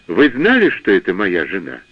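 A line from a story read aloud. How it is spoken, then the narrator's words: Calm. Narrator (Russian): спокойно ответил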